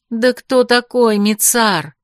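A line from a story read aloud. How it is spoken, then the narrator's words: Astonished exclamation. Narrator (Russian): изумленно воскликнула я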